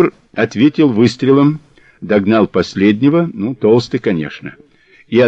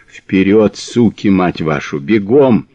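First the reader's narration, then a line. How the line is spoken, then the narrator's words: Hoarse rasping. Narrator (Russian): хрипел Мазур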